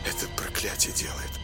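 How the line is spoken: Quiet. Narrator (Russian): тихо сказал Ник

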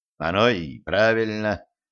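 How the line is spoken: Grumbled under breath. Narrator (Russian): буркнул себе под нос Пресловут

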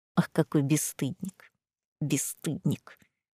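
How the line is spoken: Old woman's stifled hiss. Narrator (Russian): сдавленно прошипела бабуля

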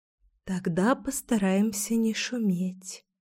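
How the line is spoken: Whisper. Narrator (Russian): зашептала я

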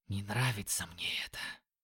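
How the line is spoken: Quiet. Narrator (Russian): тихо сказал Юки

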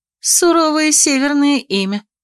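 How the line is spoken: Short laugh. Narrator (Russian): хохотнула я

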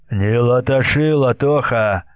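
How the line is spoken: Sharp rebuke. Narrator (Russian): осадил Исаул Глеб Ныриков

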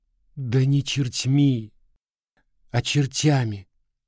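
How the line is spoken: Sobbing interruption. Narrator (Russian): всхлипывающе перебила она

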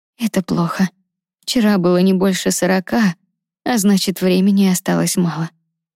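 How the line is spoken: Sighing. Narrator (Russian): вздохнула Лиза

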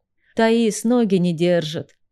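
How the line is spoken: Moaning brother. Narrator (Russian): простонал братец

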